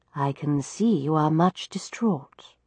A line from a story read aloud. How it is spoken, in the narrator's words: she said softly